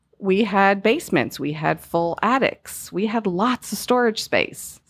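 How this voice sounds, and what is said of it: US Northeastern accent. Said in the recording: “I am from the Northeast, if you couldn't tell by my accent.”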